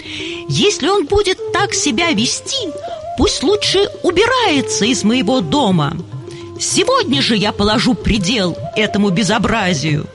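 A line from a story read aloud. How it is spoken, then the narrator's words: Angry father shouting loudly. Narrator (Russian): отца, который в гневе кричал на весь дом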